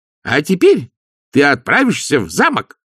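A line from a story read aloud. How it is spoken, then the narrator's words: Barked. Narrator (Russian): рявкнул нянюшка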